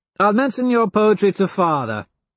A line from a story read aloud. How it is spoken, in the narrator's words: Cassius laughs